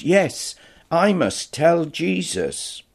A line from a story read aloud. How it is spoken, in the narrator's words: face lit up as she exclaimed